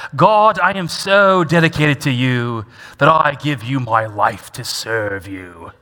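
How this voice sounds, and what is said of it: Put-on British accent. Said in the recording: “he probably spoke with a British accent”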